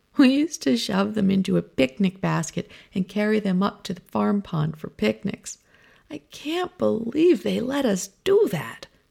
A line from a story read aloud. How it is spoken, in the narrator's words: laughs